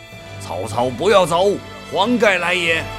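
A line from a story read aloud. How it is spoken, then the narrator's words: Loud shout. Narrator (Chinese): 黄盖 大声地叫道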